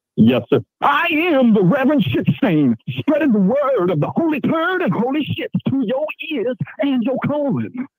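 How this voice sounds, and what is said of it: Put-on character preacher voice. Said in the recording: “I do a voice, sorry.”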